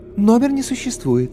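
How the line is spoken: Unexpectedly melodious female voice. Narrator (Russian): Орлица неожиданно мелодичным женским голосом сообщила

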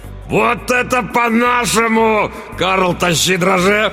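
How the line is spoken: Roared. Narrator (Russian): взревел тот

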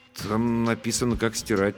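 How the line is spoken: Uncertain. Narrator (Russian): неуверенно объяснил я

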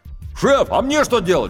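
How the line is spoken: Shouted from below. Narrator (Russian): крикнул снизу рулевой

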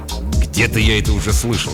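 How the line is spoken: Grumbling mutter. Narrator (Russian): пробурчал Фрэнк

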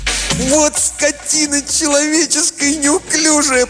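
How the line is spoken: Whining from below. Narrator (Russian): проскулил внизу Колобок

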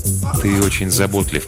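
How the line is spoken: Gentle. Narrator (Russian): мягко заметил Фандер

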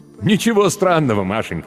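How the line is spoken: Laughing. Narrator (Russian): смеялся Земляникин

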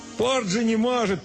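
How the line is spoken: Shouting. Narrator (Russian): прокричал он

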